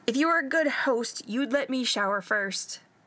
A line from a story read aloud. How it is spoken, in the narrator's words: Stiles shouted after him